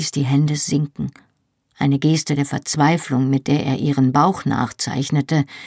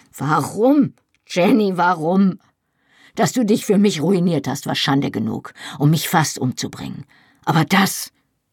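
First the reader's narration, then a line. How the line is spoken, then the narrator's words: Called out. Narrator (German): rief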